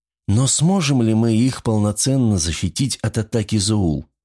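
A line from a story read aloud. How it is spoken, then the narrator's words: Sighing daughter. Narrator (Russian): вздохнула дочь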